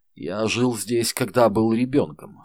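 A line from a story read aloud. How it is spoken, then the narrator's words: Plain. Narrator (Russian): сказал он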